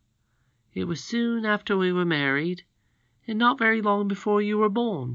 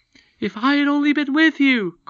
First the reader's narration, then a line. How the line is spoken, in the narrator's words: cried father and son in a breath